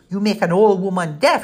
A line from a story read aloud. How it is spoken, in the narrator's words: she shouted over their banter